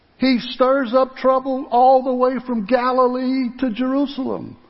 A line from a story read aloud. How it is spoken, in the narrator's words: somebody shouted out